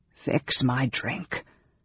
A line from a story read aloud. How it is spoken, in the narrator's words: the mage ordered in a rasping voice